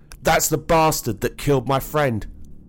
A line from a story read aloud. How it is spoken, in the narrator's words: he yelled out